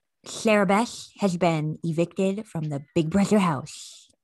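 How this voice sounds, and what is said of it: Cartoon sloth character voice. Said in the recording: “I have a really good Sid the Sloth impression.”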